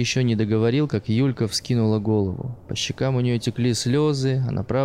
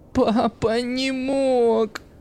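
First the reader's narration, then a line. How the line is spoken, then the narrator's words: Sobbing exclamation. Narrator (Russian): Захлебываясь рыданиями, воскликнула она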